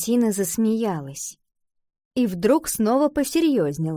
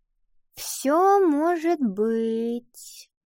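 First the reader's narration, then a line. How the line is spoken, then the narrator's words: Vague drawn-out voice. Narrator (Russian): неопределенно протянула Ива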